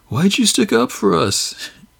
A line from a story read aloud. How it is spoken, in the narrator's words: Jimmy chuckles